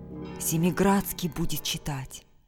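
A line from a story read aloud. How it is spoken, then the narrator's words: Whisper. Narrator (Russian): кто-то шепнул другому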